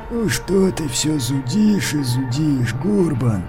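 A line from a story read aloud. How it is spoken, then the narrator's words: Creaky reply. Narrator (Russian): проскрипел Маркус в ответ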